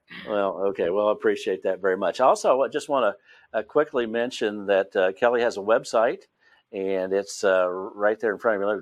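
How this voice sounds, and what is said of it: West Virginia accent. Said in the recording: “I have my West Virginia accent”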